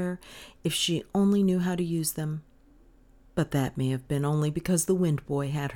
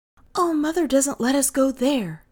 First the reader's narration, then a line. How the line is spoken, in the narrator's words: Kay cried